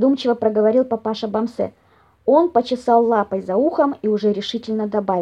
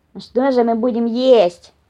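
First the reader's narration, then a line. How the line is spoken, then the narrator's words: Displeased grumbling. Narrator (Russian): недовольно пробурчал лис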